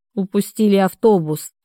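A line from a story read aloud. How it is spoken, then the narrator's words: Irritated, through teeth. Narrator (Russian): раздраженно процедил Денис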